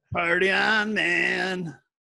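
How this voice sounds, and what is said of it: Imitates another person's voice. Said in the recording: “That, that one wasn't quite as good of a Justin impression.”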